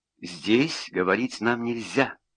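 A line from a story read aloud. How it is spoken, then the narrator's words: Murmuring. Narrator (Russian): пробормотала она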